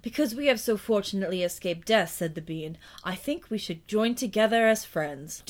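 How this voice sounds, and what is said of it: Shifting character accents, New Jersey. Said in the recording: “Your accent is all over the place. ... One of them just has this New Jersey accent.”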